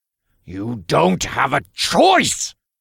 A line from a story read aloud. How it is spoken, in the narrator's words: Uriel growled